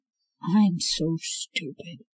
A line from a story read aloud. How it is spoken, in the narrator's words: she muttered